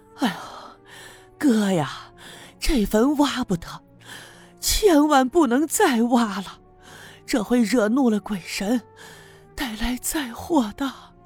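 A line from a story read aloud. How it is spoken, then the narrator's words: Catching breath. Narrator (Chinese): 赵六姑好不容易喘匀了一口气儿，继续对赵村长说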